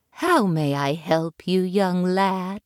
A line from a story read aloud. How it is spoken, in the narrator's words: the lady asked